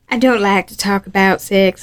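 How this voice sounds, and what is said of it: Bad, unintelligible put-on Southern accent. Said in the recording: “That was my southern accent ... It was so bad ... I'm trying to be southern, but also unintelligible and like weird”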